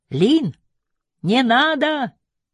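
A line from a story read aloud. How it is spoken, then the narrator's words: Louder shout. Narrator (Russian): крикнул громче прежнего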